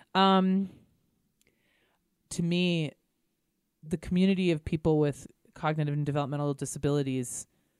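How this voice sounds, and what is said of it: Emotional, choked-up voice. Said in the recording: “I'm getting a little emotional”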